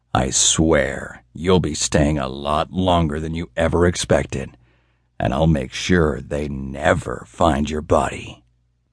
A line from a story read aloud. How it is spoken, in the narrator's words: he intoned through gritted teeth